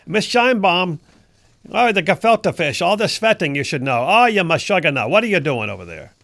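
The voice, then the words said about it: Jewish New York grandmother voice. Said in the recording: “my impression of a Jewish grandmother in New York City.”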